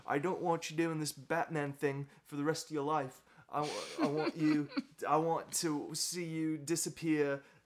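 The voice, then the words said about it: Imitates another person's voice. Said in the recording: “That's my Michael Caine impression. My Michael Caine impression.”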